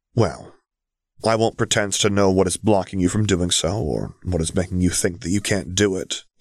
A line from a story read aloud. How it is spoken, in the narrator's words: he murmured gently